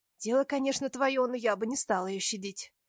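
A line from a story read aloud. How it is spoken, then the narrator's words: Whisper. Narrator (Russian): шепнула мне Вика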